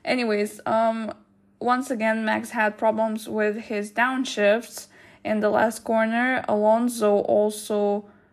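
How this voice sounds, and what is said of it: Flat monotone reading voice. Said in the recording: “I'm sorry that I'm reading in so monotone ... I'm sorry for reading in such a monotone voice”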